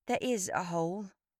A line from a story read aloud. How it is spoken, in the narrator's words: I said quietly